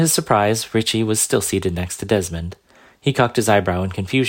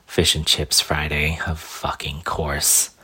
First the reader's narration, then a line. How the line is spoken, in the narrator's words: Grumbling muttered to himself